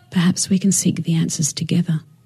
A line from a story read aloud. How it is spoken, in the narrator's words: she'd whisper